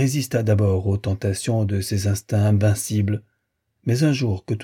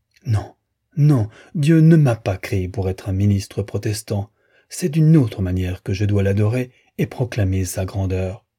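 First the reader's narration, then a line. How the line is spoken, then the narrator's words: Anguished exclamation. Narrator (French): s'écriait, dans son angoisse présente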